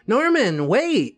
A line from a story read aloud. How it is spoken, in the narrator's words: exclaimed